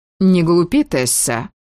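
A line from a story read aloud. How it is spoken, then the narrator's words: Irritated dismissive mother. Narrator (Russian): матушка раздраженно отмахнулась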